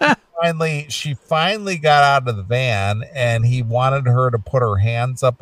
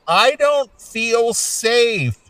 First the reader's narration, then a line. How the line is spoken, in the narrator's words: she kept screaming